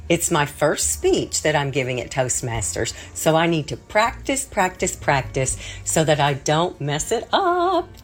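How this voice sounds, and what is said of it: Distinctive pleasant accent. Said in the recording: “your accent is so brilliant. You could say anything and people would enjoy it.”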